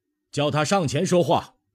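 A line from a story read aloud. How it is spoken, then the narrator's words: Cold. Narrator (Chinese): 张广嗣冷冷的说道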